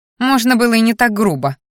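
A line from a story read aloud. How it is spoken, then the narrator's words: Snorted. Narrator (Russian): фыркнула Мелисса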